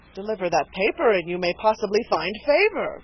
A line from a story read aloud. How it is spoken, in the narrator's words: cried Dunwoodie, expecting a discovery of importance to the cause